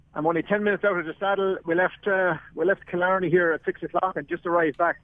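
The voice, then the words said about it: Tired-sounding voice. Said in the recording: “if I sound a little tired, it's because I am.”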